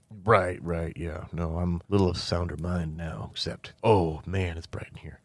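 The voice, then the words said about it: Put-on Southwestern US accent. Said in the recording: “I do wonder why you have that accent, though. ... Why am I sound like I'm South American? Or not South American, but Southwestern, United States America.”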